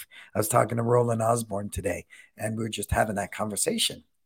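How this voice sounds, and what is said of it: Hoarse, worn-out voice. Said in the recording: “I'm losing my voice”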